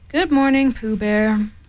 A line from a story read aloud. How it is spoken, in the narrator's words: said Eeyore, gloomily